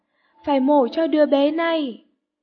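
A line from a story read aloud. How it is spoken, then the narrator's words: Shouting over rotor noise. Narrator (Vietnamese): Người bác sĩ cố hét lên, át tiếng những cánh quạt đang quay trên đầu họ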